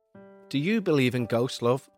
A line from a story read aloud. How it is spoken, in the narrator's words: asked Mary